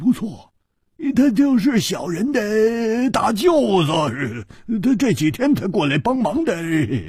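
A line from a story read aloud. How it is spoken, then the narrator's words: Obsequious smiling. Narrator (Chinese): 那个马脸汉子居然笑着，陪着笑说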